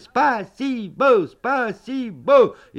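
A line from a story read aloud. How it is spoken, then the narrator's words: Shouting together. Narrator (Russian): И мы закричали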